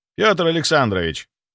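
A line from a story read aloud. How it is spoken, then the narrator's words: Dry interruption. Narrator (Russian): сухо перебил Федоров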